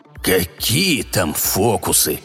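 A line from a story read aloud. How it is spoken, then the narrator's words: Angry devil grumble. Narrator (Russian): сердито пробурчал дьявол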